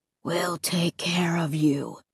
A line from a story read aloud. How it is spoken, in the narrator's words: the horror replied, lowering his gruff voice nearly to a whisper